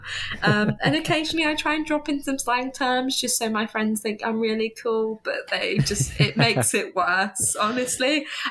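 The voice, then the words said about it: Southern English accent. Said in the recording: “this lovely southern accent that I do have”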